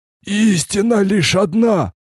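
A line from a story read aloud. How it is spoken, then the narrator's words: Hoarse prisoner. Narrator (Russian): прохрипел пленный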